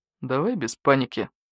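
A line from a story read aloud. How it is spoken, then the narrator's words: Calm. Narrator (Russian): спокойно сказал Барсук-старший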